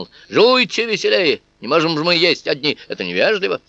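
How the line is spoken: Barked. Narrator (Russian): рявкнул

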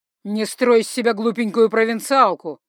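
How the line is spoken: Angry growl. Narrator (Russian): зарычал муженек

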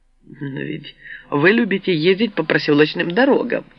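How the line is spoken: Snide reply. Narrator (Russian): ехидно отозвалась я

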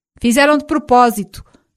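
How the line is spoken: Shouting, beside himself. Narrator (Portuguese): gritou Rino a Stefano, fora de si

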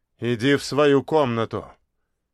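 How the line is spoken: Stern fatherly command. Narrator (Russian): грозно приказал отец

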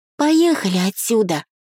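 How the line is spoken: Pleading. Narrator (Russian): взмолилась Септа

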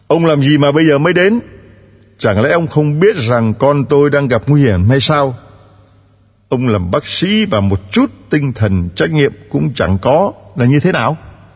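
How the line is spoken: Loud angry scolding father. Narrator (Vietnamese): người cha của bệnh nhân đang cấp cứu đã lớn tiếng quát mắng

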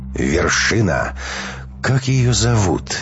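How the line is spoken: Enchanted voice, interrupting. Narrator (Russian): все тем же очарованным голосом перебила его Анна

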